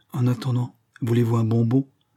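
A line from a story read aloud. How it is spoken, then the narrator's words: Stammered, outraged. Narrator (French): Il balbutia, outré de cette familiarité déplacée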